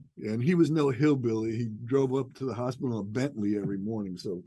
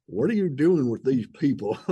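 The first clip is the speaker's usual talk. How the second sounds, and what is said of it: Imitated Northern Georgia accent. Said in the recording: “in the mountains of Northern Georgia ... I'm going to imitate his accent.”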